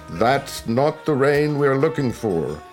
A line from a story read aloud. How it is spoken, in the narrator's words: he shouted